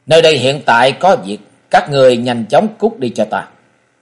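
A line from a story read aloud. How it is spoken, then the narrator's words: Cold, impatient youth. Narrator (Vietnamese): Mỹ thiếu niên sớm đã hết kiên nhẫn, lạnh lùng nói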